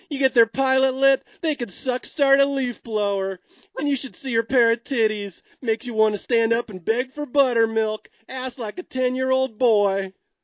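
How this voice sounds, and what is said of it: Imitates another person's voice. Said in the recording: “my Bill Paxton impression ... Yeah, that's perfect.”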